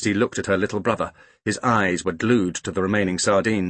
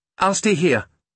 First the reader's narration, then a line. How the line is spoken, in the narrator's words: she said quickly